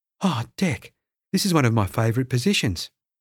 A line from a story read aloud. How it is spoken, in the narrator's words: Charlie gasped